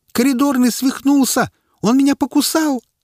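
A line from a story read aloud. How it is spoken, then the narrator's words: Woman screaming. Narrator (Russian): завопила одна из женщин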